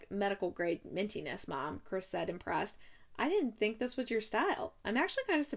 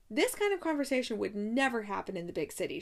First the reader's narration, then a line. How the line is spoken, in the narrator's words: she snapped